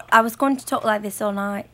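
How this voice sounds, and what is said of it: Put-on English accent. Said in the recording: “I'm going to talk in this accent for the rest of the night ... rude-ass English people”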